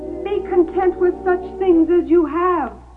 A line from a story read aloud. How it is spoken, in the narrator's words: someone shouted